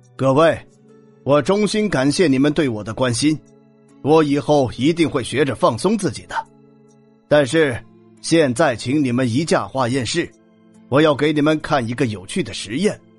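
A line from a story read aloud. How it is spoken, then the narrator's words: Loud announcement. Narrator (Chinese): Michael 放下手机，大声向众人宣布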